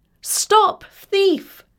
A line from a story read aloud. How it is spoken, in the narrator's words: called out Talia